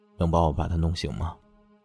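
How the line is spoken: Soft voice. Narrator (Chinese): 乐大远轻声道

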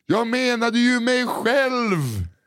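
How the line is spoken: Shouted. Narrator (Swedish): Hans ropade

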